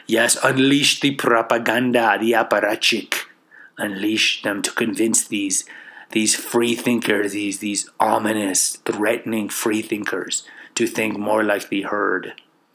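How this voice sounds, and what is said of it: Put-on unidentifiable accent. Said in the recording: “I really don't know what accent that's from.”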